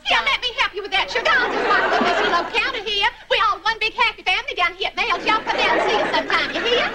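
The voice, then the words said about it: Exaggerated cornpone Southern accent. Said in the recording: “What is it with the cornpone accent? We're not doing Gone with the Wind.”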